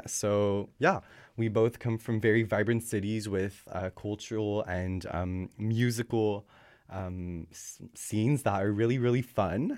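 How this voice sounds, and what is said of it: Slight Quebec French accent. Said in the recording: “my little Quebec accent coming through, shining through”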